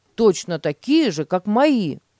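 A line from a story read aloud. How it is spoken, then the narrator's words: Exclamation. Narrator (Russian): воскликнул Петя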